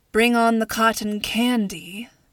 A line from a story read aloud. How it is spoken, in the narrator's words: Nora mumbled